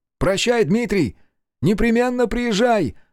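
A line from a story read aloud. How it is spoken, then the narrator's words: Shout. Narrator (Russian): крикнул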